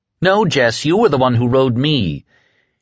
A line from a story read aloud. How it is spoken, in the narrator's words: jeered in sudden, furious anger